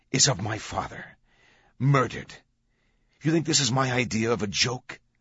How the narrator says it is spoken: Vittoria said, her voice like boiling lava

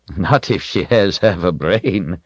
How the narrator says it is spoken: Zed chuckled

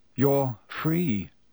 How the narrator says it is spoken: said Harry

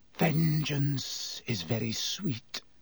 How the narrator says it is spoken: Snape breathed at Black

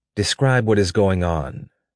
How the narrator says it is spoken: she asked him in a calm voice

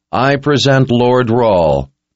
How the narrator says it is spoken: said in a clear tone that rang out over the men gathered at the top of the pass

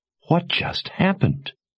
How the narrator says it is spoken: Jensen whispered

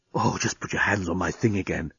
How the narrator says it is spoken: he was whispering in her ear

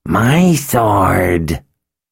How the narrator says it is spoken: Samuel hissed

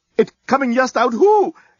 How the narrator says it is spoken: exclaimed the head reporter

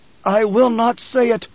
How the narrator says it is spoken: Paul gasped

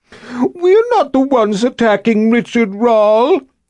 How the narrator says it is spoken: he said in a falsetto voice, in a mocking manner

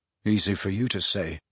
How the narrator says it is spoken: muttered Harry

